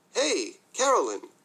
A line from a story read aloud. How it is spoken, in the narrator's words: Grandma said in her cheery voice